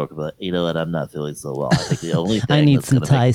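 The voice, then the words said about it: Fake sick-sounding voice. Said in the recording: “That sounded like you were sick. That was good.”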